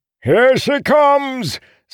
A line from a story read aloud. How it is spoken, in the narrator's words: Selsun finally yelled